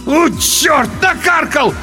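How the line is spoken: Loud wail. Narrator (Russian): в голос взвыл

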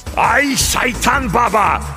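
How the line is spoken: Roared. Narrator (Russian): взревел Дев

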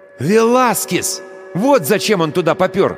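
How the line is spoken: Couriers exclaiming in unison. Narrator (Russian): одновременно воскликнули курьеры

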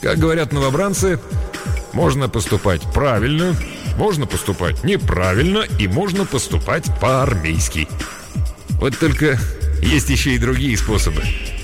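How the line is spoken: Giggling. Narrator (Russian): Монро хихикнул

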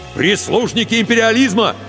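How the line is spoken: Angry shout. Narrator (Russian): гневно выкрикнул Егор

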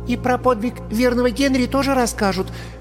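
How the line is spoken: Squeaky, shy schoolgirl. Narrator (Russian): пискнула голенастая школьница, покраснев от собственной смелости

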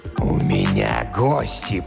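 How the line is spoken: Growl. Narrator (Russian): прорычал он

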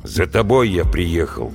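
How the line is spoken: Gloomy. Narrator (Russian): мрачно сказал Вася

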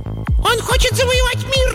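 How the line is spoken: Squeaky voice. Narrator (Russian): запищал

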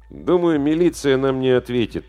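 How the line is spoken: Gloomy. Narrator (Russian): мрачно сказал Димка

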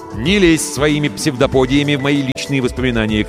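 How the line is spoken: Shouting toward another room. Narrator (Russian): крикнул я в сторону ванной

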